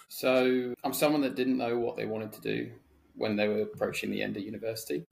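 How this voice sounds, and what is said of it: British accent. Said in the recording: “It's a lovely British accent you've got there”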